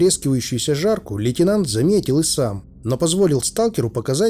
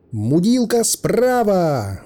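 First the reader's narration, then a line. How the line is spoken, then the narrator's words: Shouted. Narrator (Russian): выкрикнул Грязнов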